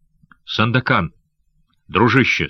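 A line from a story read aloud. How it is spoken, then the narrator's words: Soft voice. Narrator (Russian): сказал Янос мягким голосом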